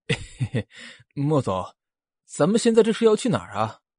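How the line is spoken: Giggling foolishly. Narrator (Chinese): 司慕又傻笑的说

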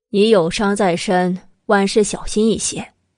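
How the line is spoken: Calm, indifferent. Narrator (Chinese): 慕容九九淡淡一语

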